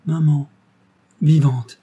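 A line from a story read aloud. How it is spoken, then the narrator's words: Exclaimed. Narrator (French): s'écria Missiden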